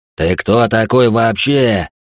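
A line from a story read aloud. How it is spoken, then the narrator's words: Roar. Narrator (Russian): взревел тот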